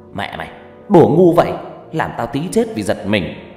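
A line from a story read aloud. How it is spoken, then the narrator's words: Angry. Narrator (Vietnamese): nói với tôi bằng giọng giận dữ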